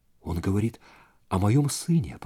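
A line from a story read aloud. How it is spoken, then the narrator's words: Whispered. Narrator (Russian): прошептала она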